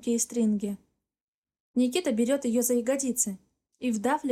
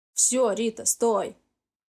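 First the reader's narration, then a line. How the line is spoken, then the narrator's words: Hoarse. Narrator (Russian): хрипло говорит Никита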